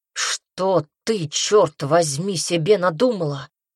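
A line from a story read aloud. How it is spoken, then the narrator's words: Growl. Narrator (Russian): прорычал он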